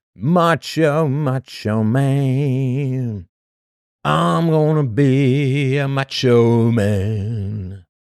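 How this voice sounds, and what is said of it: Poor sung impression of another voice. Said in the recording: “That's not really a very macho man impersonation,”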